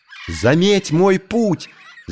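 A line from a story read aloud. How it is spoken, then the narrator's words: Shouting. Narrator (Russian): закричал Маугли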